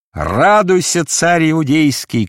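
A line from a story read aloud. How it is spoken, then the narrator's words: Shouted. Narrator (Russian): крикнул он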